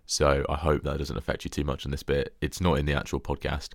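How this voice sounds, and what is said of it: Gravelly, hoarse voice. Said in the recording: “my voice is a little bit gravelly in this intro. I have got a cold,”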